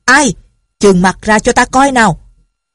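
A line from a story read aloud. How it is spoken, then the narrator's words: Loud shout. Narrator (Vietnamese): một người lớn tiếng quát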